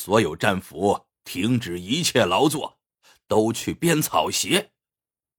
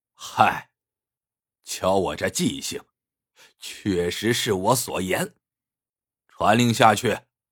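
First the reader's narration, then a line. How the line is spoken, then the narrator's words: Laughing. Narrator (Chinese): 李将军笑道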